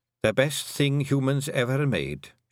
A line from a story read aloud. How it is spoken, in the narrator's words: she said